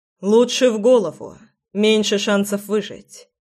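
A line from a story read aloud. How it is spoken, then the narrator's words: Calm informing. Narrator (Russian): спокойно проинформировал Фрол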